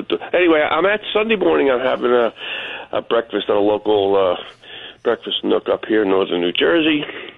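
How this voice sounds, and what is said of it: Slightly altered, allergy-affected voice. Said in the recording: “I got a little allergy. My voice has changed a little bit.”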